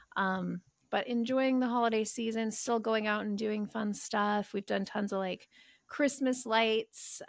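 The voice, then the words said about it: Hoarse, congested voice. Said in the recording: “losing my voice, I have a cold.”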